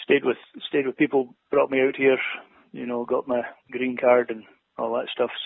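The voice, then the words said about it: Scottish accent. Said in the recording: “for all I know, you could be in Scotland right now. It's like you never left when when I hear your accent.”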